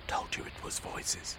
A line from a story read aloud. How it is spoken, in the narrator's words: he whispered